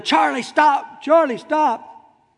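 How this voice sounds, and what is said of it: Yelling. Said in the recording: “and I'm yelling,”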